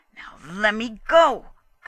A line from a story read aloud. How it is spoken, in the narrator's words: Gustrason growled